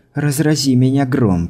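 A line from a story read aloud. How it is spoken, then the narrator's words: Grumbled. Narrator (Russian): проворчала Скайла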